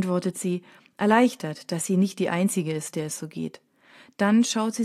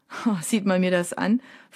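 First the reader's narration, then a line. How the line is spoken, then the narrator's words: Laughing question. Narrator (German): fragt der Typ sie lachend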